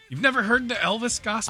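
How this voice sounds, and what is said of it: Yelling, loud voice. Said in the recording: “Why are you yelling at me right now?”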